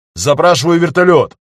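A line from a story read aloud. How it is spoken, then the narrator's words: Shouted reply. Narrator (Russian): крикнул Багиров в ответ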